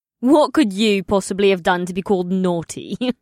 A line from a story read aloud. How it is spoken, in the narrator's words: Emrila asked with a throaty laugh